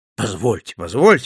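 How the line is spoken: Exclaiming. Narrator (Russian): воскликнул

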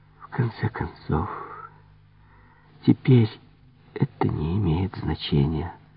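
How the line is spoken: Weary whisper to herself. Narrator (Russian): с жестом безграничной усталости, она будто себе самой прошептала

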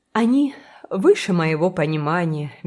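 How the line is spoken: Helpless sigh. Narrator (Russian): беспомощно вздохнула

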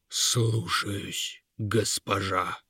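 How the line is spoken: Gloomy giant. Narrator (Russian): мрачно ответил великан

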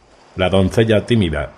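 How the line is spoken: Shouted reply. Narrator (Spanish): respondió Jandri también a gritos

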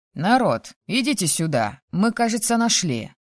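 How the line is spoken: Cheerful echoing shout. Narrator (Russian): Бодро крикнул он, и эхо пошло гулять по коридорам

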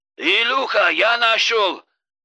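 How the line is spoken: Shouting into phone. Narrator (Russian): кричал он в трубку

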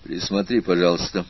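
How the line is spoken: Gloomy request. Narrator (Russian): попросил он Наташу таким мрачным голосом

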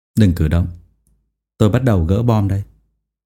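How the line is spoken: Calm, smiling. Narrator (Vietnamese): Hùng Nguyên lại có thể mỉm cười ... rồi nói với giọng bình tĩnh

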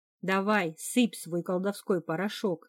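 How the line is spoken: Impatient grumble. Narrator (Russian): с нетерпением в голосе пробурчал Хакон

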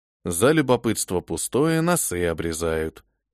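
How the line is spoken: Muttered. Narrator (Russian): пробормотал

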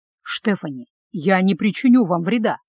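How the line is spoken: Gentle coaxing. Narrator (Russian): мягко начал уговаривать меня Николас

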